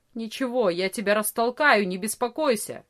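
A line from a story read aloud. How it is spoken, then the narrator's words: Angry grumble. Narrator (Russian): сердито проворчал Ария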